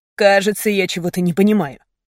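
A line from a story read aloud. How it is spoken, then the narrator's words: Irritated. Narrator (Russian): раздраженно сказал Мейсон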